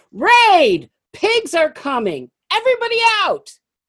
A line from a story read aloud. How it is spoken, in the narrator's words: a commotion started with shouts of